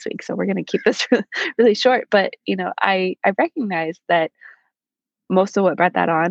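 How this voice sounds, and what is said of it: Hoarse, froggy voice. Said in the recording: “I sound like I have a frog in my throat because I've been sick for the last 2 weeks with a nasty cold”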